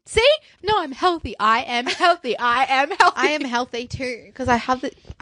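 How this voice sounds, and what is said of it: Nasal, congested voice. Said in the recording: “we both have runny noses ... my voice is like nasally or something. It's not very nice.”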